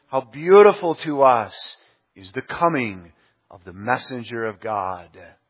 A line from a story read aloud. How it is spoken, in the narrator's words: Zion learned to exclaim